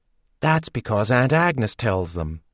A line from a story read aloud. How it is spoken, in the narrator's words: Sophie muttered